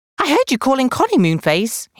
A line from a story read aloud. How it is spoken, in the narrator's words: he said